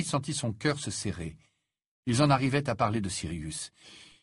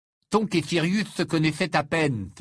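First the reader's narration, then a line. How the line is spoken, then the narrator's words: Exclamation. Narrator (French): s'exclama Ron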